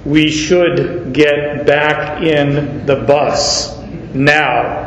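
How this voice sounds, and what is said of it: Deep voice, East African accent. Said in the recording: “He said in his perfect English, deep voice, East African accent,”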